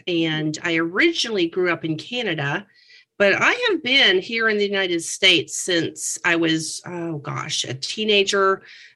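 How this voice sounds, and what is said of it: Slight Canadian accent. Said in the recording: “I heard your accent a little bit earlier. ... It's my oats and the boats.”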